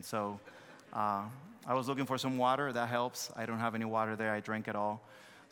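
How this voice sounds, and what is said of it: Thick foreign accent. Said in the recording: “my thick accent ... I understood your thick accent”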